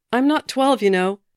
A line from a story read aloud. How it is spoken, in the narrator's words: he shouted